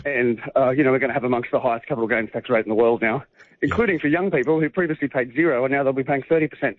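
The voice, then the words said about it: Out of breath while speaking. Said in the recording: “You're out of breath ... Yes, I am actually ... Walking very fast.”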